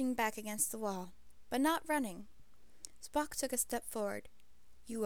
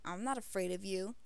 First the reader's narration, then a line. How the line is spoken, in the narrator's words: he said harshly